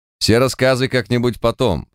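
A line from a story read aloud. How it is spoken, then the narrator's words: Stern statement. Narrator (Russian): строго заявил Март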